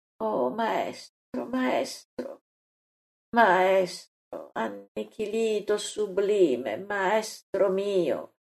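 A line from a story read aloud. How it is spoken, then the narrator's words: Continuous devoted murmur. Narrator (Italian): non fa che mormorare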